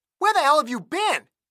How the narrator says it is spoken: Andy screamed so loud, Magnus flinched and held the receiver away from his ear

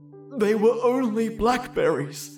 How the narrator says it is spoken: I sobbed snottily

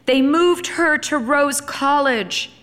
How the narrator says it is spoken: Emily shouted in explanation

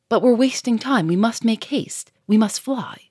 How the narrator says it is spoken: Sonia cried

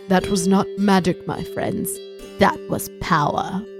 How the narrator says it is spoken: Gandalf said quietly and with concern

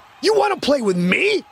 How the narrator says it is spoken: Quentin shouted

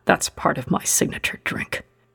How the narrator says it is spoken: he whispered

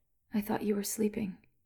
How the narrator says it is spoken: said, half a whisper

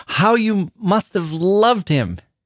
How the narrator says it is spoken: cried

